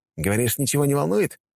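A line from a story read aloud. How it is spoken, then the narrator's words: Smirking grunt. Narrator (Russian): хмыкнул Лой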